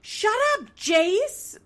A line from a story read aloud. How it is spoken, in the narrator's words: screaming